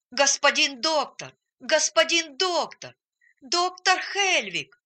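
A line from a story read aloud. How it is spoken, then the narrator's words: Shouting with all strength. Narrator (Russian): крикнул он изо всех сил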